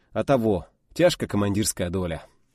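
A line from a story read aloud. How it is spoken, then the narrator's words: Gloomy sigh. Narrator (Russian): уныло вздохнул Павел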